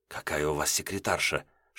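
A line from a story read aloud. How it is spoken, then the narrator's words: Whisper in ear. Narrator (Russian): шепнул мне на ухо Вернадский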